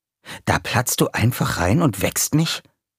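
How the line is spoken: Hissed. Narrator (German): zischte er

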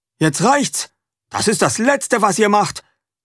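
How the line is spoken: Father shouting. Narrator (German): ruft Vater

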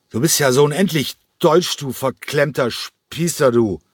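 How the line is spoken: Loud drunken slurring. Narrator (German): Cranko lallte noch immer, aber seine Stimme war jetzt laut geworden

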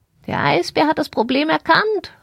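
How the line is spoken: Excited bird calling. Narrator (German): rief sie und flatterte wild mit ihren Flügeln

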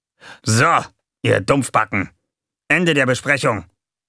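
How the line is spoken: Sudden barking shout. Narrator (German): bellte Gonko plötzlich los

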